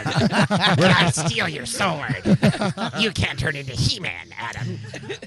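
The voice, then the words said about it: 80s cartoon villain voice. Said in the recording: “You have 80s cartoon villain voice.”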